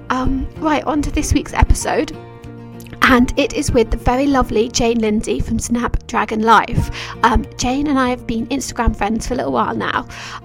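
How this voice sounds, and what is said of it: Hoarse, croaky voice. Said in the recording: “back when I actually had a voice ... you won't have to listen to me croak the whole way through ... I sound so rubbish in this intro and outro ... hoping that I would get my voice back”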